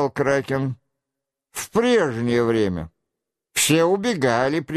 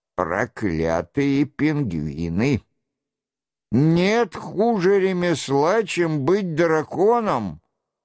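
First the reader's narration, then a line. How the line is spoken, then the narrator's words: Grumbling. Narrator (Russian): проворчал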